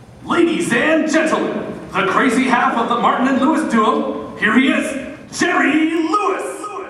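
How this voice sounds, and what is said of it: Booming stage announcer voice. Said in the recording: “putting on his best announcer voice”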